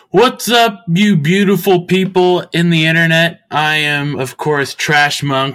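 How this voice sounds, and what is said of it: Speaking very loudly. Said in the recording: “I'm talking really loud. I'm going to take it down a notch there.”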